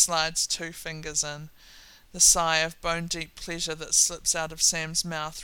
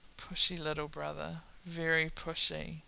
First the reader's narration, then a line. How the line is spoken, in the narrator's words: Dean snorts, can't look at Sam as he mutters